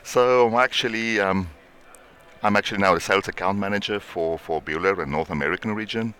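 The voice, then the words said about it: Strong South African accent. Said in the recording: “strong accent... some people basically would say it's actually Australian, but it's not. It's South African.”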